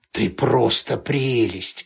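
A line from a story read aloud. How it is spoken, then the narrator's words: Hoarse. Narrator (Russian): хрипло сказал он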